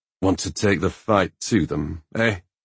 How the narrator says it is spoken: Arshav grunted

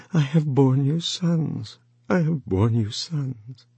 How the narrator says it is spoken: say over and over, moaning

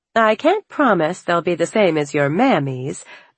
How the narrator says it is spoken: I said, laughing again at the memory of how he'd blurted out his craving to me all those years ago

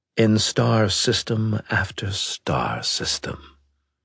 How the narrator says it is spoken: the Builder said sadly

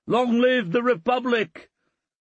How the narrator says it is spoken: They were shouting to an empty chamber

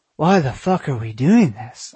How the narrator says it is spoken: I asked between gasps

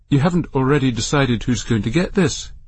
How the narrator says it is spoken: He asked, and then added quickly and apologetically

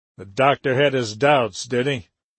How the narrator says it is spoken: asked Weldon grimly

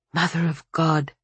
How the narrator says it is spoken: Sasha whispered

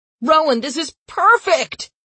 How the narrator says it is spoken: Ian yelled, disregarding the fairy's delicate ears

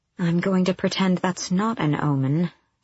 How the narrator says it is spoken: she muttered

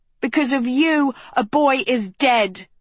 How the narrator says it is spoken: Agatha yelled

